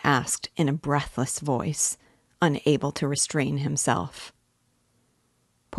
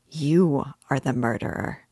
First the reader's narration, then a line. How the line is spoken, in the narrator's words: he added almost in a whisper, in a voice of genuine conviction